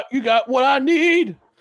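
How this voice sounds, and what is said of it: Imitates another person's singing voice. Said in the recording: “my impression of Eddie Murphy doing his impression of ... Teddy Pendergrass.”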